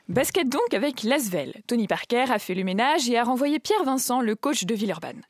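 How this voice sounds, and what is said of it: Put-on Alsatian French accent. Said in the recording (French): “à l'alsacienne ... Je pimente la chronique avec mon accent”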